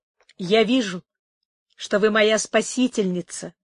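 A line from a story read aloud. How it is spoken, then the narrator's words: Exclaimed. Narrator (Russian): воскликнула Амарант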